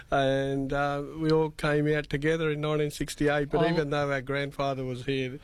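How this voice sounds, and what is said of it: Strong Australian accent. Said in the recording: “You've got a great Australian accent.”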